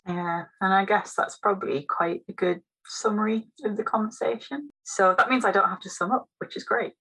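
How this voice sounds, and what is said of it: Voice going hoarse. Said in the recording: “I am starting to lose my voice. I'm pretty sure I'm getting a cold ... my voice is really starting to go.”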